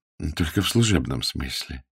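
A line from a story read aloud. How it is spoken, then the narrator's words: Calm correction. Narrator (Russian): спокойно поправил Стаковский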